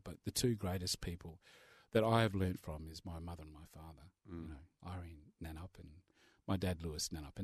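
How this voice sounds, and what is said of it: Emotional voice. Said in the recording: “I'm getting a bit emotional.”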